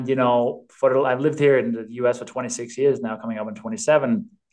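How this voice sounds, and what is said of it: Danish accent. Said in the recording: “I'm from Denmark originally, hence the accent”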